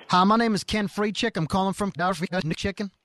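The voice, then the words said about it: Put-on accent, poorly done. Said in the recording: “I nail this accent ... Another bad accent from”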